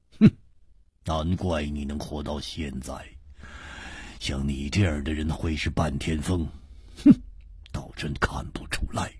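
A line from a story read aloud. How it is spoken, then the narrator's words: Cold. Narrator (Chinese): 一点红冷冷地说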